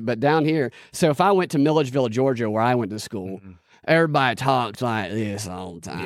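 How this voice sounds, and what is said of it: Exaggerated Southern US accent. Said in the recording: “that's a real Southern accent.”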